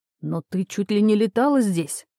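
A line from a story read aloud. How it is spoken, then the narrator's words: Emotional exclamation, healer. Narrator (Russian): Не сдержав эмоций, воскликнул целитель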